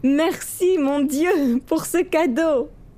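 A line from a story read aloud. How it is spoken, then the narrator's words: Exclaimed. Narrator (French): Yassir s'écria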